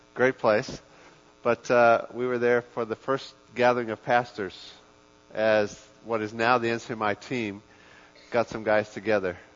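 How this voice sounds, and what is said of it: South African accent. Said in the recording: “we were actually lived in Durban in South Africa. I know you can't tell from my accent.”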